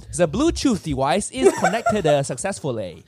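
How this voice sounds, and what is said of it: Mock Chinese-accented device voice. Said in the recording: “the voice command has a Chinese accent.”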